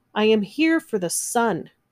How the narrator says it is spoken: Usha shouted

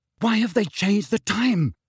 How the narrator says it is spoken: Harry said breathlessly

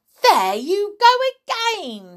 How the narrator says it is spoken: she cried

